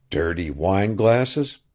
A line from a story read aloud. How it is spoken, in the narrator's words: he muttered